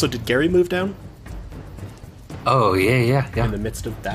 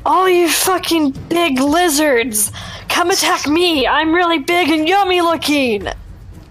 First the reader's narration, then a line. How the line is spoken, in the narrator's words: I'm gonna yell and bang on my shield and say